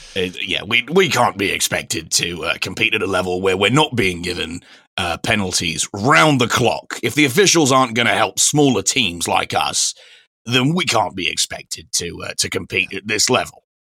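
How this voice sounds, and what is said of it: Imitates another person's voice. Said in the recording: “my Sean Dyche impression”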